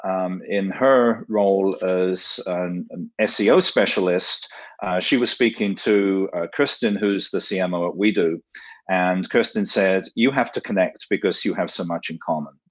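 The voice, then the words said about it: London English accent. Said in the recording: “the accent is not from Silicon Valley. I grew up in London, England”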